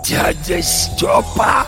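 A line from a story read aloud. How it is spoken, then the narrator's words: Hoarse, recognizing. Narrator (Russian): прохрипел Горемыкин, узнавая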